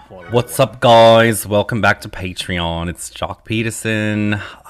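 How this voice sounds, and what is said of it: Put-on Australian accent. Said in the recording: “I won't do an Australian accent again tonight ... It was very Rocco's Modern Life ... you sounded like Rocco. You didn't sound like me.”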